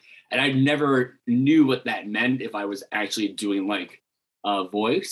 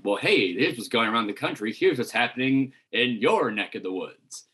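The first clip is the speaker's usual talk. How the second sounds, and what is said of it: Exaggerated announcer-style radio voice. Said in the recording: “I'm going to do a radio voice ... I'm doing this like ... do you really talk like that?”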